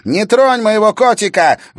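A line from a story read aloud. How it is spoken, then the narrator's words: Shrill squeal. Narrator (Russian): взвизгнула Саяна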